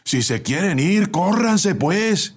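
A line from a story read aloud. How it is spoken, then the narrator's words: Assistant shouting from outside. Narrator (Spanish): gritó el ayudante desde afuera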